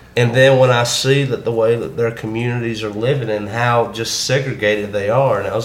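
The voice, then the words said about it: Southern US accent. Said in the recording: “it's not hard to figure out because of my accent, but when they figure out where I'm from the South”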